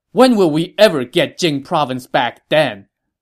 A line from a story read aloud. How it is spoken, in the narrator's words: Sun Quan shot down this objection angrily